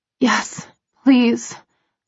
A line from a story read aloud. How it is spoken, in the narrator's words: I breathe, my voice hoarse and needy